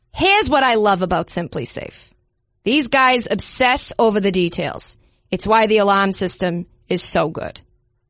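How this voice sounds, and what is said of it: Poor attempt at Boston accent. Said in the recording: “someone who's trying to do a Boston accent and not quite getting it ... Jack Nicholson in The Departed”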